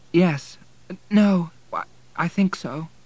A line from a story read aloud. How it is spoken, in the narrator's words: responded timidly, suppressing a rising tearfulness